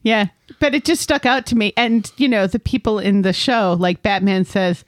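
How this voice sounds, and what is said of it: Usual voice. Nothing is said of it.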